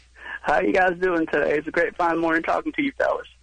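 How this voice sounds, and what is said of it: Imitates another person's voice. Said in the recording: “I'm going to be doing Bill Clinton.”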